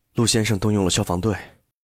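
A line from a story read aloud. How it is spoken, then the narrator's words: Lowered voice. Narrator (Chinese): 压低声音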